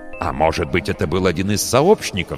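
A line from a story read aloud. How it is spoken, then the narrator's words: Plain. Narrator (Russian): сказал Лейер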